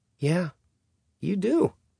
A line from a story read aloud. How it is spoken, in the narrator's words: she said, her voice rising at the end with bitter amusement